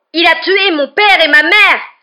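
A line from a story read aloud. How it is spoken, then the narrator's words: Roared. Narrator (French): rugit Harry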